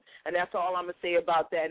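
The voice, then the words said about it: Forrest Gump impression. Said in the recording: “in my Forrest Gump voice.”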